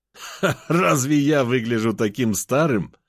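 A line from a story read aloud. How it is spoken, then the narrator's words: Laughing. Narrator (Russian): рассмеялся я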